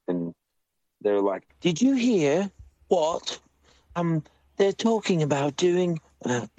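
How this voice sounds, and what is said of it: Deliberately bad put-on accent. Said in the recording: “Sorry for the bad accent”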